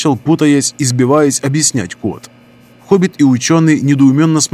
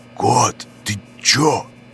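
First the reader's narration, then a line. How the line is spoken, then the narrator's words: Loud whisper, interrupted. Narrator (Russian): Громким шепотом начал было хоббит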